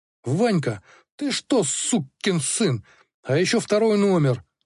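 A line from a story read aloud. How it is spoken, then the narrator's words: Angry shout. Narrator (Russian): зло закричал Филат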